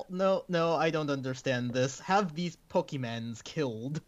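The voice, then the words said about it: Pretty good put-on Russian accent. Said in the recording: “That was a pretty good Russian accent.”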